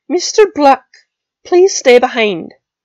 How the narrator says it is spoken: McGonagall called out

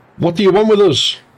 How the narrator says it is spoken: another man shouted

